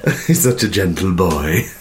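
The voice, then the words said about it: Imitates another person's voice. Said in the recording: “that your impression of Stuart? ... your Jamaican boyfriend”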